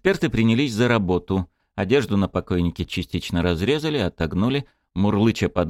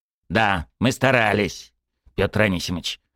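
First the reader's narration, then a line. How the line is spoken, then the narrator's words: Grumbling. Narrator (Russian): проворчал Микульчин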